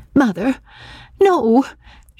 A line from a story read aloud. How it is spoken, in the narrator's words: she pleaded